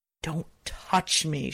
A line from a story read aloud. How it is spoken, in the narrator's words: she hissed